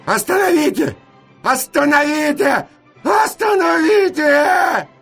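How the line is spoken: Repeated frantic shouting. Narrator (Russian): кричал я, как заведенный

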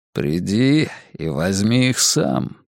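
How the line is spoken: Feigned calm, menacing. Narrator (Russian): процедил Вука притворно спокойным, опасным тоном

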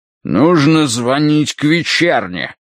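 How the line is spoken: Barking, struggling free. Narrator (Russian): рявкнул он, вырываясь

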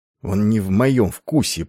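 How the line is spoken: Through gritted teeth. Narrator (Russian): процедил Айвин сквозь зубы

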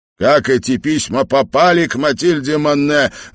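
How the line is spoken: Loud question. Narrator (Russian): громко спросил он

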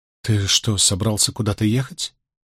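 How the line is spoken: Hesitant question. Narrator (Russian): неуверенно спросила она

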